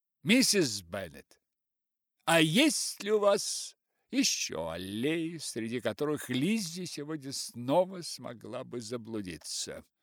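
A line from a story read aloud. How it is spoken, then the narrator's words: Loud. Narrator (Russian): Бингли громко сказал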